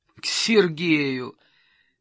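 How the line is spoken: Deep belly laugh. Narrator (Russian): Гурова утробно расхохоталась

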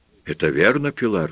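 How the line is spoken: Plain. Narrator (Russian): спросил он

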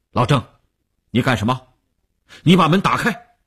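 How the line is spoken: Harsh command. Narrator (Chinese): 吴长天厉声喝令

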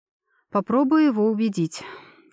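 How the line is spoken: Heavy sigh. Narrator (Russian): тяжело вздохнула

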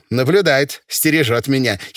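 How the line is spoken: Giggling. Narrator (Russian): хихикнула Рая Абаульна

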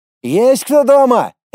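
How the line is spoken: Calling out from a distance. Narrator (Russian): Влад, не подходя к крыльцу, крикнул

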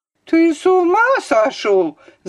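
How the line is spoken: Shouting. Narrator (Russian): закричала Варвара Петровна

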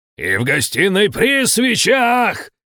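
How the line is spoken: Yelling at full voice. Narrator (Russian): орал я во весь голос

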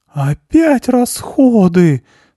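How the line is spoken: Groaning complaint. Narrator (Russian): застонал Груша

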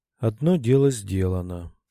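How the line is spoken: Sighing. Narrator (Russian): вздохнула Альрика

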